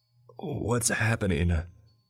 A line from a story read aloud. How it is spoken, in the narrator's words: I groaned from the floor